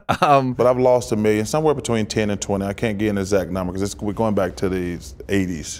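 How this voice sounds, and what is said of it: Charles Barkley impression. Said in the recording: “Charles Barkley ... Do a black accent.”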